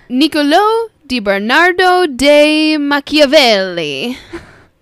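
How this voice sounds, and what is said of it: Poor put-on Italian accent. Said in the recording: “Not very good in an Italian accent. It comes out super like a spicy meatball”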